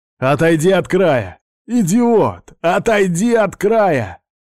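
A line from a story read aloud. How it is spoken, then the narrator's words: Hoarse shout. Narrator (Russian): охрипшим голосом прокричал Уайт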